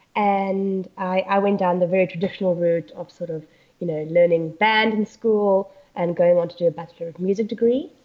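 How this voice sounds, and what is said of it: South African accent. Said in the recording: “I originally grew up in South Africa, as you can hear from my accent”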